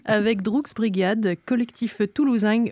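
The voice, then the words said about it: Put-on Toulouse accent. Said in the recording (French): “Oui, j'ai fait l'accent. Je suis pas sûre que ce soit le bon”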